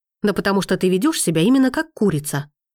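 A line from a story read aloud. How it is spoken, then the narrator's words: Angrily spat. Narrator (Russian): зло выплевывает Макс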